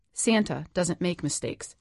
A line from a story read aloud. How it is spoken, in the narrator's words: she said, her voice as solid as cement